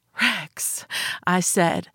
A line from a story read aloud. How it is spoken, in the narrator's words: his name a gasp